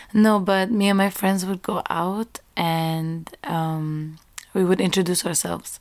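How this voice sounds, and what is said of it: Hoarse, fading voice. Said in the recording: “I'm losing my voice always.”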